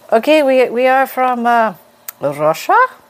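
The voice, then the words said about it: Put-on Russian accent. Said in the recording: “that's as far as my Russian accent goes”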